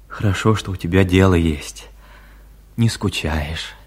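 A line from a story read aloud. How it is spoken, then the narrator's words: Tender, unfamiliar voice. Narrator (Russian): ласково, голосом, какого она еще не слышала от него, сказал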